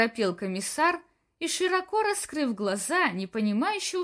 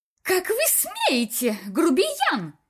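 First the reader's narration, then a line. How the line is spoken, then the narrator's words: Screeched. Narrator (Russian): завизжала задержанная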